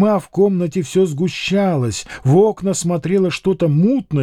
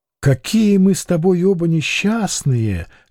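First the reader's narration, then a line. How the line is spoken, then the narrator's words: Said with a sigh. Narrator (Russian): сказала Люба и вздохнула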